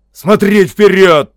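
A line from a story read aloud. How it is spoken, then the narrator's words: Barking. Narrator (Russian): рявкнул он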